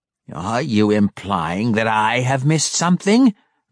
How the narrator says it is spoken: Malice growled

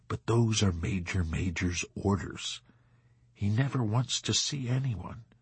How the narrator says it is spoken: he said regretfully in a low, courteous, melancholy voice

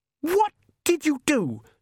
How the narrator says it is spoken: She gasped

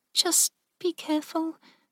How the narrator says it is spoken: Mindy said softly

